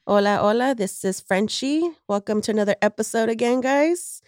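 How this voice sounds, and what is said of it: Sick-sounding, under-the-weather voice. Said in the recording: “Excuse my voice. I am a little bit under the weather”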